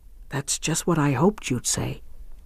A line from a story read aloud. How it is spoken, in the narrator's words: murmured Rosier